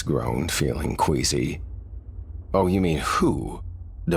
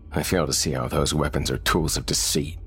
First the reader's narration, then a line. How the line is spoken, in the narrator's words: Thomas scoffed